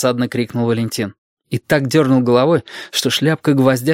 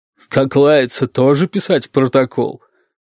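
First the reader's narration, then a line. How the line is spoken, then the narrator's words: Gloating bass question. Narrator (Russian): злорадным басом спросила Розалия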